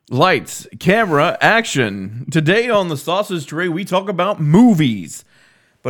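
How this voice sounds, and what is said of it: Announcer voice. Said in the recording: “your announcer voice”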